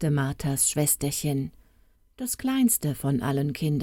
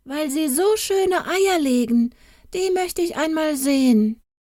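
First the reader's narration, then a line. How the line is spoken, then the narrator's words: Small boy calling out. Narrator (German): rief ein kleiner Knabe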